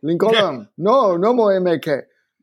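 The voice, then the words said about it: Exaggerated Spanish accent. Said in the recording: “he says it with an outrageous Spanish accent”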